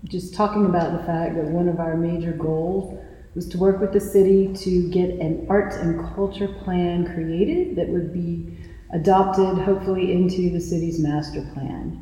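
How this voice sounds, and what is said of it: Southern American accent. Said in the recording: “I'm detecting a Southern accent.”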